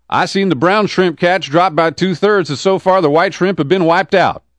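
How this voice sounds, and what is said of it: Put-on Southern US accent. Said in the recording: “my sick southern accent”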